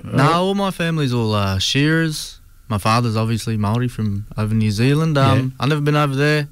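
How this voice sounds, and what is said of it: Slight New Zealand-sounding accent. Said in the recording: “a little bit of an accent. I said, oh, are you from New Zealand?”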